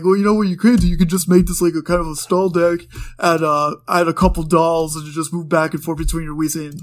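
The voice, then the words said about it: Imitates another person's voice. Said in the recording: “That is a horrible impression of Adam. Horrible impression.”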